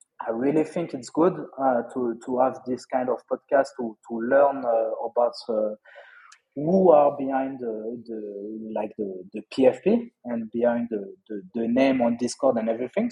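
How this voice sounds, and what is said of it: French-accented English. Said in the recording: “My French accent wasn't too hard”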